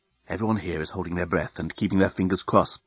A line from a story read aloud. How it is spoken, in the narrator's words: whispered the head reporter of the Bluontin News-Gathering Bureau into his invisible microphone